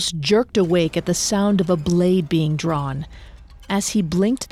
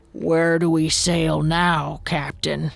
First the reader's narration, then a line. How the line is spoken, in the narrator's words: he croaked